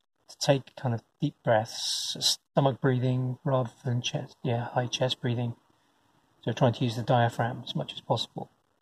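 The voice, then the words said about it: Croaky, hoarse voice. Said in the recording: “I almost entirely lost my voice. ... It's still croaky. I can still feel it. I still have a sore throat.”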